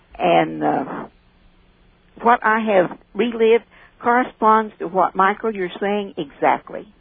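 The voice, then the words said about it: Speaks with a noticeable accent. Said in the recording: “I'm just listening to that accent, so just keep on talking. It's just great. ... It's more the way you're saying it.”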